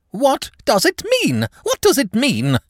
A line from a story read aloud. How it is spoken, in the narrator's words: he cried